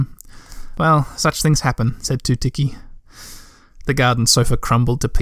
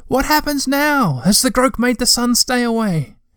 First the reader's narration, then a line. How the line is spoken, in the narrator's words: he shouted